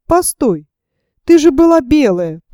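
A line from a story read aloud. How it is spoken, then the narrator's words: Trembling voice. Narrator (Russian): продолжал я дрожащим голосом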